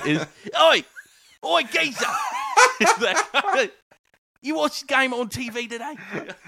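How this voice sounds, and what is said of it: Put-on Cockney accent sliding Australian. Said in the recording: “are we talking like Oliver Twist level accent? ... Oi! type of accent ... you went very Australian”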